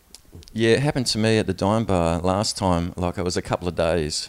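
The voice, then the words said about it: Australian accent. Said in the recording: “I'm ... from Australia ... how much they like the accent ... is it New Zealand or Australia?”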